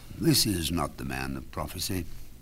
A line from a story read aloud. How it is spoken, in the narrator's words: sighed Ernest to himself